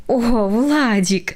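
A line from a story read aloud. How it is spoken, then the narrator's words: Mother's involuntary laugh. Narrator (Russian): невольно рассмеялась мама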